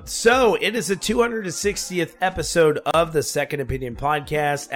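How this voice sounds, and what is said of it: Sick, congested voice. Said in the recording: “I'm a little under the weather ... I got pretty sick. I got a uh, like a summer cold or something ... my voice sounds a little weird”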